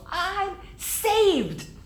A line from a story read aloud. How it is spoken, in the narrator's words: I yelled